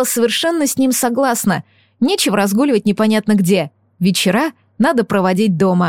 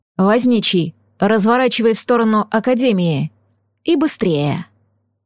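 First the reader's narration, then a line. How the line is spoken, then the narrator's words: Rasping. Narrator (Russian): Жених прохрипел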